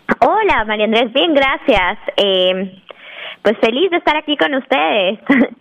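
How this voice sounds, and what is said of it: Guatemalan Spanish accent. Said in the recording (Spanish): “me suena el, el, tono, el acento. Eh, eres de Guatemala.”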